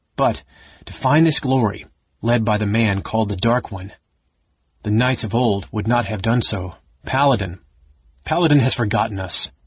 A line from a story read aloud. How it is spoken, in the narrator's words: Garrick said bitterly